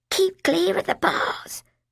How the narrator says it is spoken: Colin whispered

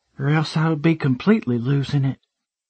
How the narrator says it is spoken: she breathed out

